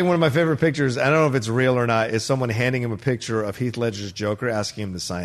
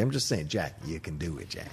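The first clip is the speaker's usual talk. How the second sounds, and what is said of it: Poor Jack Nicholson impression. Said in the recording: “worst Jack Nicholson impression.”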